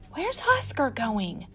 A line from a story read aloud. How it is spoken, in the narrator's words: whispered Flora